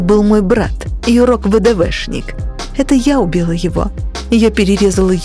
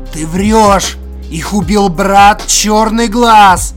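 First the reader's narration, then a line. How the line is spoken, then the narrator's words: Growling. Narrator (Russian): прорычал Тупой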